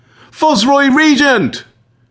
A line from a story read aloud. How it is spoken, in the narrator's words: shouts again